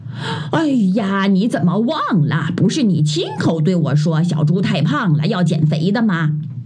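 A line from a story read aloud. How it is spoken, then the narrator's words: Smiling. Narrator (Chinese): 鸭大婶笑着对猪妈妈说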